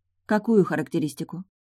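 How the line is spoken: Near whisper. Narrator (Russian): Мы переговаривались почти шепотом

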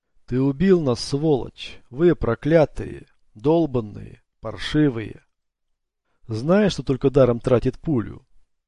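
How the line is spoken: Grumbling. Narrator (Russian): Его тонкогубый маленький рот проворчал

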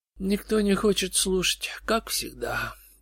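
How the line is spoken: Sad madman's remark. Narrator (Russian): печально заметил безумец

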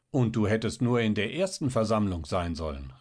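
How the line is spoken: Husband calling out. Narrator (German): rief ihr Mann

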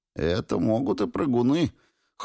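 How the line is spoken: Snort. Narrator (Russian): хмыкнул Сапега

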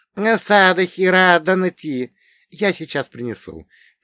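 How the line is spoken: Squeak. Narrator (Russian): пискнула сербка

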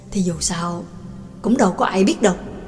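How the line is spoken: Low whisper. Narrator (Vietnamese): Trương Lập hạ giọng thì thầm

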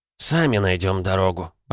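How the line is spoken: Grumbling. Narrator (Russian): проворчал отец

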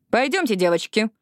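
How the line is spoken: Sharp. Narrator (Russian): резко сказала Жаклин

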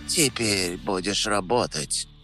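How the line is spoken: Quiet. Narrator (Russian): сказала она тихо

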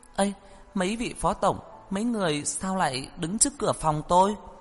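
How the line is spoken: Frightened, puzzled cry. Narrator (Vietnamese): Tiểu Nhu khiếp sợ, kỳ quái không hiểu kêu lên

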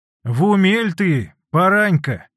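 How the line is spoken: Stern mother. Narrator (Russian): строго ответила мать

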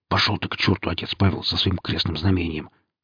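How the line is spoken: Whispered reply. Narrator (Russian): шепотом отозвался Сергей

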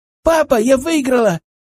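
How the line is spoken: Joyful triumphant shout. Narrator (Russian): радостно закричала она, радуясь своей маленькой победе

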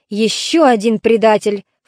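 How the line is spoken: Snorted. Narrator (Russian): фыркнул Агамемнон

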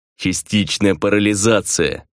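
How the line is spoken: Through gritted teeth. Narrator (Russian): Сквозь зубы отозвался Кристоф

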